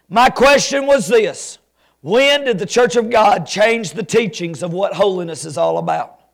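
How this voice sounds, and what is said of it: Alabama Southern US accent. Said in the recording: “You've got to be from Alabama ... My, my accent?”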